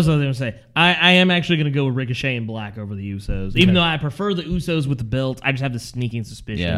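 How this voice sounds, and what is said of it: Usual voice. Nothing is said of it.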